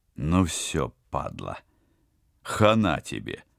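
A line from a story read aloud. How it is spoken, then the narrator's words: Solemn announcement. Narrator (Russian): торжественно объявил Теодор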